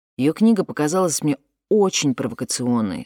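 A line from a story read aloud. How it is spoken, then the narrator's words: Plain. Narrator (Russian): сказал Фуат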